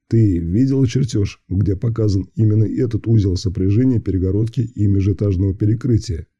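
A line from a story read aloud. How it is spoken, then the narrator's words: Calm, restrained. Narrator (Russian): Пока все еще спокойно и не срываясь на крик, уточнил я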